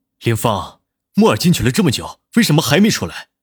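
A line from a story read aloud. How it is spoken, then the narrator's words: Frantic shouting. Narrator (Chinese): 南离川快要急疯了，吼道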